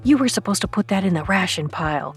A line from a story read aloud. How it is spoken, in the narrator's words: Cody whispered